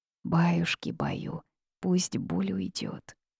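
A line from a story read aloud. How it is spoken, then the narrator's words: Muttering to herself. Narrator (Russian): бормотала себе под нос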